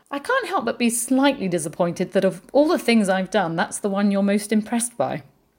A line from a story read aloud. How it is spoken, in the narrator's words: laughed and said